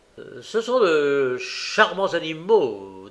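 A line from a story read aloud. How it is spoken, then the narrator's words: Approving tone. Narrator (French): dit Monsieur Bumble d'un ton approbateur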